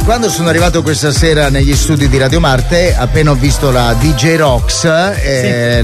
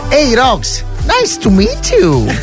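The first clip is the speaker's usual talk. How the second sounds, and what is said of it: Put-on English accent. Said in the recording (Italian): “gli inglesi lo dicono con quell'accento così”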